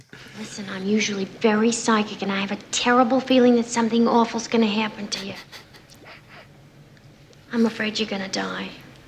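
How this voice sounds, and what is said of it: Strong, unmistakable accent. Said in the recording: “there's no disguising that accent.”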